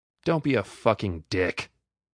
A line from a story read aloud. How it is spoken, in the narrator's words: spat back